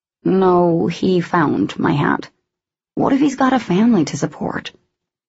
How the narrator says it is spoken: Shelby whistled under her breath

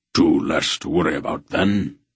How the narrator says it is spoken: Breck grunted with approval

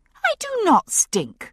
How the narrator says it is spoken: I said indignantly

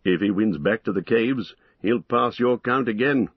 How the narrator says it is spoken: laughed Aragorn

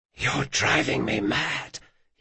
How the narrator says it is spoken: he whispered

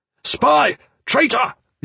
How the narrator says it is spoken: the officer shouted

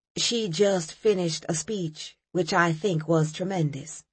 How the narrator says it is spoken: Reverend King said

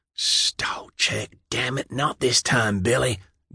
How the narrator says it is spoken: Dan whispered

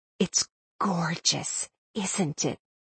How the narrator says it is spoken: Syndra whispered reverently

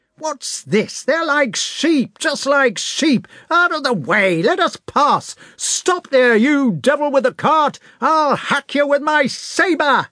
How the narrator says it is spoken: he shouted

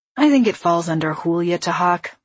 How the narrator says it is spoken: he said with a sigh

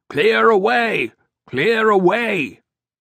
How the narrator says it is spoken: called out in an amplified roar

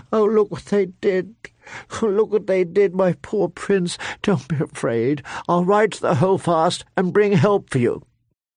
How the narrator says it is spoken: she sobbed

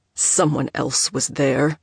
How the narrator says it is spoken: Sato snarled

